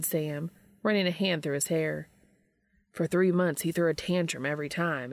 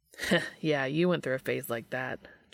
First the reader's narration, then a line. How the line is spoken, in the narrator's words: chuckled Dean